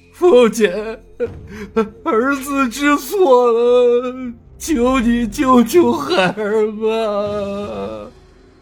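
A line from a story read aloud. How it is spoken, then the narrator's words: Crying, pleading. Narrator (Chinese): 小霸王哭着道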